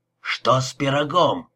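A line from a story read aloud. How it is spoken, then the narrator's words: Barking. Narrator (Russian): рявкнул Том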